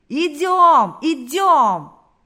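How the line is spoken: Crowd shouting. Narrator (Russian): закричали все, кто еще держался на ногах

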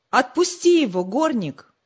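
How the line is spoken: Loud shout. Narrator (Russian): громко крикнул

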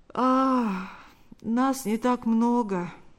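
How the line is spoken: Slightly sleepy reply. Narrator (Russian): ответил тот немного сонным голосом

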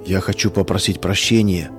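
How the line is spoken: Barely audible. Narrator (Russian): чуть слышно проговорил Саша

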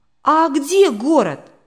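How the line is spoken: Curious question. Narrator (Russian): радостно сверкнув глазами, заинтересовался Яша

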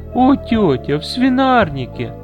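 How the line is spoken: Loud laughter. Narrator (Russian): громко расхохоталась Виннифред

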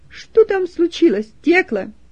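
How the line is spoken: Loud question. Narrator (Russian): Она громко спросила

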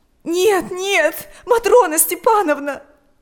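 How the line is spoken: Sobbing. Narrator (Russian): рыдала Ирина

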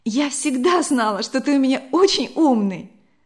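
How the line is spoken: Exclaimed. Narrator (Russian): воскликнула Вера

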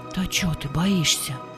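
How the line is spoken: Whispered. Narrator (Russian): шепнула ему Ульяна

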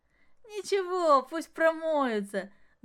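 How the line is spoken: Ringing laughter. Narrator (Russian): звонко хохотала Маша

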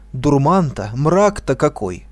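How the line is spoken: Exclamation. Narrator (Russian): воскликнул он

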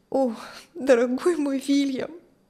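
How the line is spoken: Tearful. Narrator (Russian): сквозь слезы говорила Кристи

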